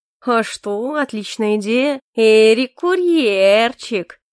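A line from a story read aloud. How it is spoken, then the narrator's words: Sing-song drawl. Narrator (Russian): напевно протянул Калипсо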